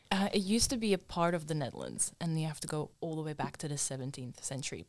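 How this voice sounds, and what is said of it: Slight Dutch accent in English. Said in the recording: “a little bit of an accent ... you don't sound like your typical Aussie female ... born and raised in the Netherlands ... haven't been able to get rid of that accent”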